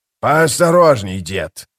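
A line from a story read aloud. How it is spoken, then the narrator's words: Growled, scarred man. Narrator (Russian): прорычал покрытый шрамами веканец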